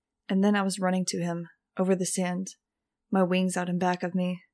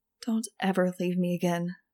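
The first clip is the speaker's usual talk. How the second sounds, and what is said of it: Tiny, small voice. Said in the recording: “I said in a tiny voice.”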